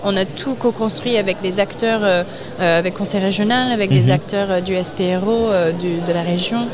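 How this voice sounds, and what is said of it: Slight American accent in French. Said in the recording (French): “vous avez un petit accent ... Je suis américaine.”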